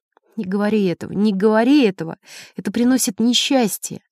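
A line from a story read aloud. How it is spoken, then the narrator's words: Tearful, crying woman. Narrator (Russian): женщина начала плакать, и сквозь слезы она повторяла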